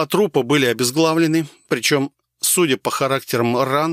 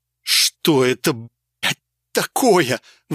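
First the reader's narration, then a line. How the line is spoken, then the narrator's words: Forced out after vomiting. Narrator (Russian): выдавил я из себя, знатно проблевавшись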